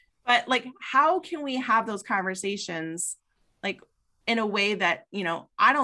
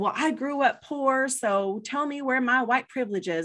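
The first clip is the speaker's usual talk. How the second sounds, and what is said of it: Put-on Southern American accent. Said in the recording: “you adopted a Southern accent for that”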